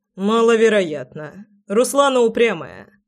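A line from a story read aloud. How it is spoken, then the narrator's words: Amused snort. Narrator (Russian): хмыкнул Громов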